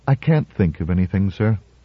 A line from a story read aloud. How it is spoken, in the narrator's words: she replied wearily